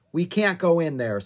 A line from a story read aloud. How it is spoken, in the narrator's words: said Jack